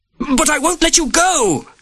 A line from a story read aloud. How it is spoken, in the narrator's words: Sir Gerald shouted